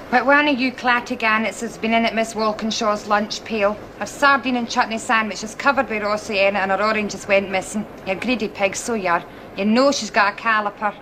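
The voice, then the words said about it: Broad west of Scotland accent. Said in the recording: “It's this really broad west of Scotland accent.”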